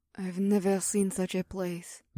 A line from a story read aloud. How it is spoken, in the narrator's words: Mira whispered